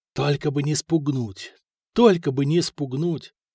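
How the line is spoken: Whispered to himself. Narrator (Russian): шептал про себя Святослав

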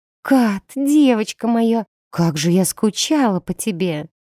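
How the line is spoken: Ringing singsong. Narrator (Russian): пропела звонким голосочком М

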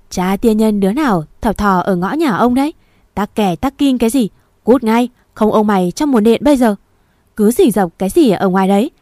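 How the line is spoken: Booming gruff loud voice. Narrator (Vietnamese): Tiếng ông Nam ồm ồm, ông nói rõ to, đến mức ở bên nhà bà Tám cũng nghe thấy được

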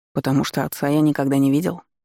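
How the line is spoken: Calm reply. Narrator (Russian): спокойно ответил

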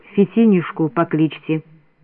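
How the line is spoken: Quiet. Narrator (Russian): Тихо сказал

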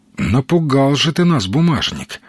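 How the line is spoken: Reproachful sigh. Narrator (Russian): вздохнул Казимир, укоризненно качая головой

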